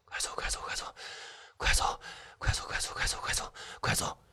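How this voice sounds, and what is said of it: Cold, quiet muttering whisper. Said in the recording (Chinese): “他用一种冷飕飕的语气在小声的念叨着”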